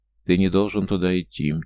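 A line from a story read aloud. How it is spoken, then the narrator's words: Calm, repeated. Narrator (Russian): тем же спокойным голосом повторил Лето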